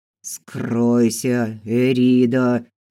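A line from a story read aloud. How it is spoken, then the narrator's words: Hiss. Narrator (Russian): прошипел Фил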